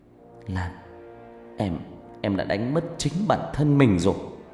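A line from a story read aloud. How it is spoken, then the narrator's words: Choked-up voice. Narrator (Vietnamese): Khánh nói bằng giọng nghẹn ngào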